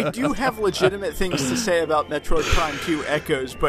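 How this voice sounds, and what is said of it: Usual voice. Nothing is said of it.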